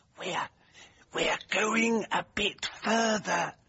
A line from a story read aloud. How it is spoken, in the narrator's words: murmured Jennings